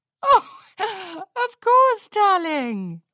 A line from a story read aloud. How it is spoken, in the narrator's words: Rarity laughed